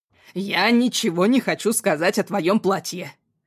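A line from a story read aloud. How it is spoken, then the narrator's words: Clipped, slightly calmer. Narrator (Russian): процедил дочери Двинский, чуть сбавив обороты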